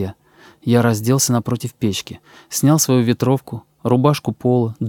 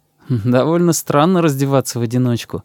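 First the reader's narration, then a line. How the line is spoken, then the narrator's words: Laughing. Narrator (Russian): засмеялся я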